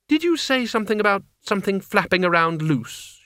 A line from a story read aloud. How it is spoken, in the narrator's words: she said, in the tight voice of someone pulling themselves together